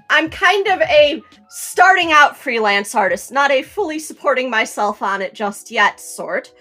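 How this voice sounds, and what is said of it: Strong Chicago accent. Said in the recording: “a lot of people could probably tell by my voice... I've got a really Chicagoan accent”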